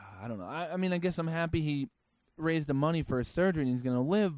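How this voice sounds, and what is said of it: Usual voice. Nothing is said of it.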